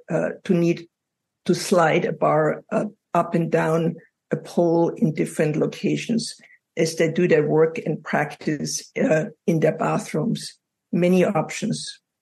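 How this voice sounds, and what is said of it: European accent. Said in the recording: “as you probably noticed from my accent, I come from Europe”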